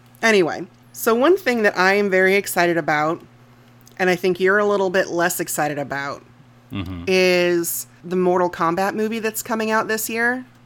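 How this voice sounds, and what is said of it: Slightly odd, sinus-affected voice. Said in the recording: “I'm dealing with some sinus stuff, folks. So if I sound a little weird, that's why.”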